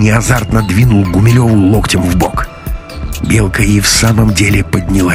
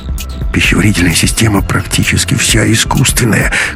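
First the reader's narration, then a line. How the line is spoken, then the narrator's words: Muttering. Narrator (Russian): бормотал Ковалев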